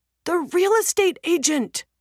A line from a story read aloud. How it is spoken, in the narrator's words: the younger man exclaims